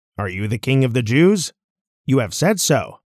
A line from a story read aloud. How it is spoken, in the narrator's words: Jesus replied